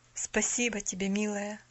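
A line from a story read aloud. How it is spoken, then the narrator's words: Tender reply. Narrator (Russian): ласково ответил Джон Пендлтон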